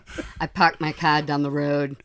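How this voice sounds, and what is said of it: Exaggerated Massachusetts accent. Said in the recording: “he did some accents. You got to do like your Massachusetts accent.”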